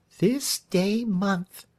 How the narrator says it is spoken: repeated Marion softly

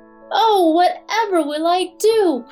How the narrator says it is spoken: cried Jack

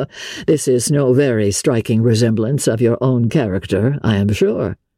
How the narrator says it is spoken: said he

